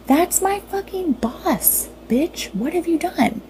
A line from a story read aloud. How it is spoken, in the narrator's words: scream